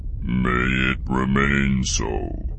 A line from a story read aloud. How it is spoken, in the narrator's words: the captain growled